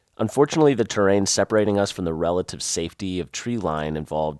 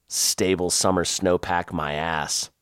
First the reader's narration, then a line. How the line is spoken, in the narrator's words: I muttered